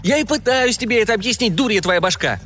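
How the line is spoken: Shouted. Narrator (Russian): крикнул Джимми

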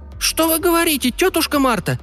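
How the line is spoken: Frightened child's squeak. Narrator (Russian): испуганно пискнул малыш

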